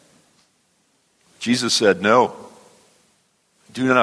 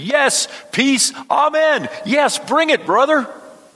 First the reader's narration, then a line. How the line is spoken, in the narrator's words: the idiot in the middle of the crowd screaming